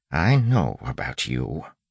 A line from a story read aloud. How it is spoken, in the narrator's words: he said softly